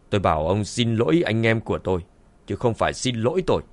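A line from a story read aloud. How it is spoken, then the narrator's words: Cold stern tone. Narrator (Vietnamese): Dương Chấn nhíu mày lạnh lùng nói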